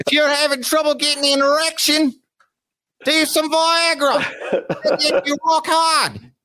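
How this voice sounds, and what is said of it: Put-on Australian accent. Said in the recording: “knows what Aussie sounds like. Be like, this is what it would sound like ... it's Aussie ... when you do your voices”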